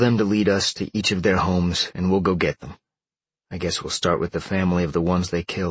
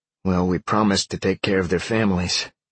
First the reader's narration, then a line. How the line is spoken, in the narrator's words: Sean sighed